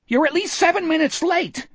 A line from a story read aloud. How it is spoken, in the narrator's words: Etheridge screeched at him